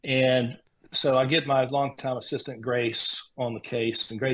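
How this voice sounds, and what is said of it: Usual voice. Nothing is said of it.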